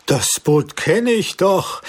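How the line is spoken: Exclamation. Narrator (German): rief mein Onkel aus

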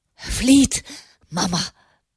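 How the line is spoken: Panting gasp. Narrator (German): keuchte er

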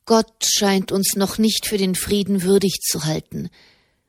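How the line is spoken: Sad. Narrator (German): sagte Soderini traurig

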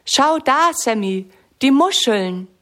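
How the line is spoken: Calling out. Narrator (German): ruft Lisa

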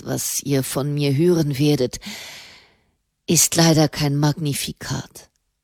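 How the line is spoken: Sighing. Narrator (German): seufzte der Papst

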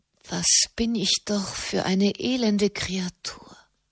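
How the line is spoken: Whispered. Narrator (German): flüsterte sie

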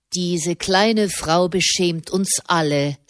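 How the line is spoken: Plain. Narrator (German): sagte er

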